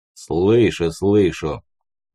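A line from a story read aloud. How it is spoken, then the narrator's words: Deep voice, chuckling. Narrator (Russian): пробасил в ответ Леший, посмеиваясь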